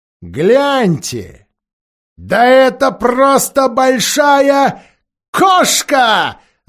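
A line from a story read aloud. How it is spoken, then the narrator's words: Shout. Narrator (Russian): закричал один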